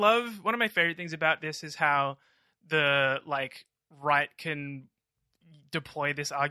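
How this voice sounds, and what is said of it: Usual voice. Nothing is said of it.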